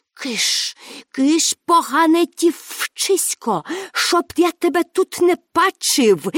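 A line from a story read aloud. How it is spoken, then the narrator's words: Hissed. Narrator (Ukrainian): засичав він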